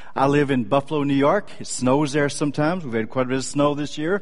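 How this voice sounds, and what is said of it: Slight Texan accent. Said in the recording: “I'm a native Texan. Any of you detect a slight accent?”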